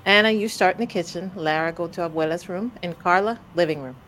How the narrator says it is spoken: Mommy said

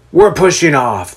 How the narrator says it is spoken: the ship's captain gruffly announces

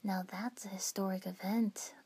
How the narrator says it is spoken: murmured

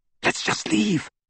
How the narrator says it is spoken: Hermione whispered

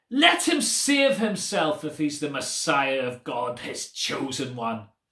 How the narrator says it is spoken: the leaders scoffed at him, saying

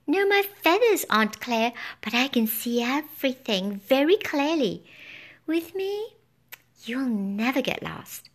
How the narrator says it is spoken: he chirped

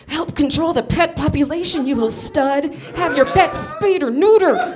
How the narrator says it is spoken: hissing into the boy's ear

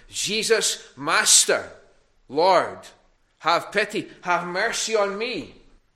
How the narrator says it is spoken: they called out to him

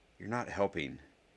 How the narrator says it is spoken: Harry said in a mild tone

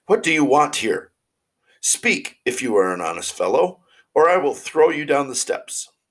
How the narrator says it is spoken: The boy cried a second time

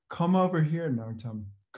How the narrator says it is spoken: Krishnananda said

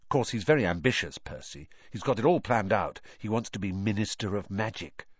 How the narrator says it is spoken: Ron told Harry and Hermione in an undertone

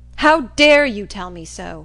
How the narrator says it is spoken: he exclaimed in great wrath

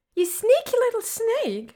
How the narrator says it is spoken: she shrieks

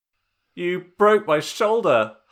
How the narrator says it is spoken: Han yelled

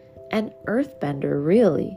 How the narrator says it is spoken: said, chuckling at his enthusiasm

